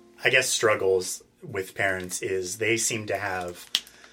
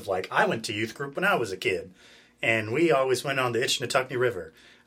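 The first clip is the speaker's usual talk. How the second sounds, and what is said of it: Put-on country accent. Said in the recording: “I don't know why I'm giving this parent a country accent, but I am.”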